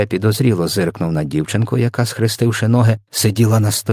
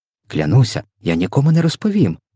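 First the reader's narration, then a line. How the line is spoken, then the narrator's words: Exclamation. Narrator (Ukrainian): вигукнула Софія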